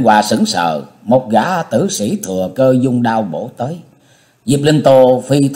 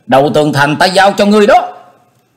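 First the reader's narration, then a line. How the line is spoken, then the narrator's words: Call out. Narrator (Vietnamese): Diệp Linh Tô kêu lên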